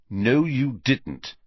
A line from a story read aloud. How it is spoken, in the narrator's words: said Harry firmly